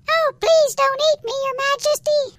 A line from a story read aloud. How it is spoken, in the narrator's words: squeaked the mouse